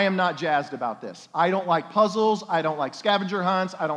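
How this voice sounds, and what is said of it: Usual voice. Nothing is said of it.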